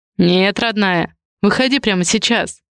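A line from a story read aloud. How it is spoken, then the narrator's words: Dull, muffled voice. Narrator (Russian): глухо произнес Адриан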